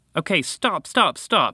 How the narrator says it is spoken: he called out

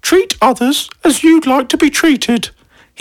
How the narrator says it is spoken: his Nan would say in her weird voice

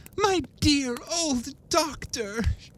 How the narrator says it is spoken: cried she

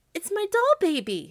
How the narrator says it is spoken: she cried

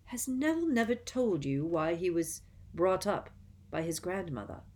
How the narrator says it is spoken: he said

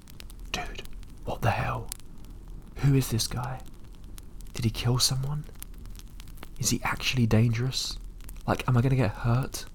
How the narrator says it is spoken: was whispering

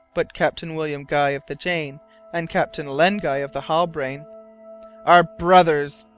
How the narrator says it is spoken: he cried in a loud voice, which was heard by all the crew

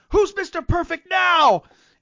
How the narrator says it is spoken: goes, he yells

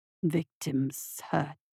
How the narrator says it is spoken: the voice grunted

